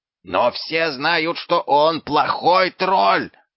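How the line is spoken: Yelled. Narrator (Russian): завопил

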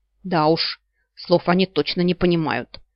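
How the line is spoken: Irritated snort. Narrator (Russian): раздраженно фыркнула Савита

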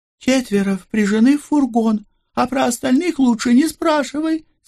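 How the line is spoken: Grimacing squeal. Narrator (Russian): скривилась Рози и взвизгнула

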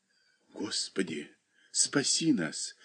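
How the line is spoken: Frightened whisper. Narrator (Russian): шептали бледные уста

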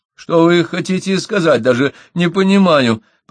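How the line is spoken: Girl's faltering babble. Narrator (Russian): пролепетала девушка

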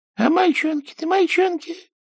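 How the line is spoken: Old woman sobbing. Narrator (Russian): всхлипывала старушка

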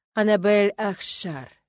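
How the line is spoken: Slow, savoring teacher's voice. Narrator (Russian): медленно проговорил педагог, словно пробуя мое имя на зуб

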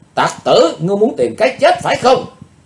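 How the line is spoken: Loud shout. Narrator (Vietnamese): Chàng dốt hét to lên

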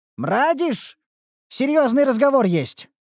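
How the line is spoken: Impatient call. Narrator (Russian): окрикнул его Динклер нетерпеливо

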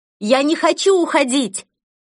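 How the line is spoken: Desperate scream. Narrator (Russian): Из последних сил я закричала

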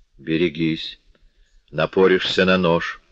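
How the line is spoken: Plain. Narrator (Russian): ответил Монпарнас

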